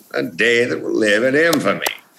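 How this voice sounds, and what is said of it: Franklin Roosevelt's upper-crust mid-Atlantic accent. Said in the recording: “Franklin Roosevelt had a very kind of upper crust New York accent that was kind of almost mid-Atlantic. ... I understood how to capture that voice ... I had the voice.”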